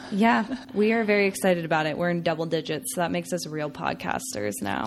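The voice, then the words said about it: Raspy, sick-sounding voice. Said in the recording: “my raspy, sick voice ... a little sick this week”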